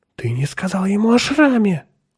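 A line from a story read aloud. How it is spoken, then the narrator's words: Agitated. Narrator (Russian): взволнованно произнесла она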